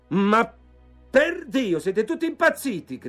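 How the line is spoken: Shouted. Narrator (Italian): gridò

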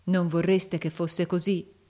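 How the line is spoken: Plain. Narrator (Italian): disse Nicola

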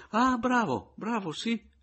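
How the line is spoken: Interrupting exclamation. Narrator (Italian): esclamò il signor Anselmo, senza lasciarlo finire

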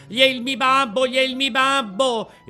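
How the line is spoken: Shrill scream. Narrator (Italian): Pinocchio cacciò un urlo acutissimo gridando

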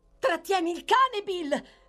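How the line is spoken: Shouted. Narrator (Italian): gridò Nancy

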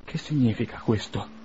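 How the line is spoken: Moved voice. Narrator (Italian): domandò con voce commossa

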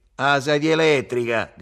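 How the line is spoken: Shouted. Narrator (Italian): gridò Lello

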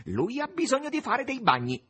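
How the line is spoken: Shouted. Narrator (Italian): gridò

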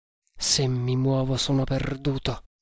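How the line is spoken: Cool, calm murmur. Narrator (Italian): mormorò con straordinario sangue freddo

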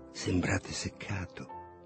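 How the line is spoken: Whisper. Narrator (Italian): Lulu mi ha sussurrato

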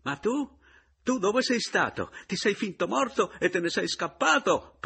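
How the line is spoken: Fisherman shrieking. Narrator (Italian): prese a strillarla pescatore

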